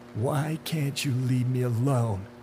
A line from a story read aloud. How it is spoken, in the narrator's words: Duane sobbed